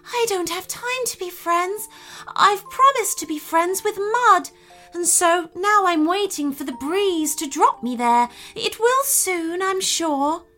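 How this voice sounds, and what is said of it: Soft-spoken gentle character voice. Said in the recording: “in a softly spoken voice”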